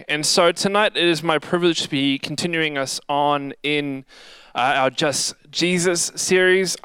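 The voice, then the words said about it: Slightly raspy voice. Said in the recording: “If I'm sounding a little kind of like raspy tonight, it's because I was singing my guts out”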